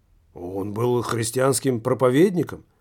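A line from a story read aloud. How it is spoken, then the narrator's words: Muttered. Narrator (Russian): пробормотал колдун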